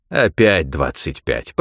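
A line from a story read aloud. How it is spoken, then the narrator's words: Investigator grumbling. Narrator (Russian): проворчал следователь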